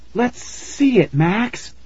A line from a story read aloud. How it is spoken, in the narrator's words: Tara cried